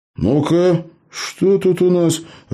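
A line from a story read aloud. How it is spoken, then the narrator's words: Bewildered. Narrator (Russian): растерянно произнес Джо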